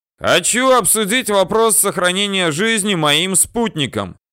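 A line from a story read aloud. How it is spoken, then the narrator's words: Resolute shout. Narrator (Russian): решительно прокричал я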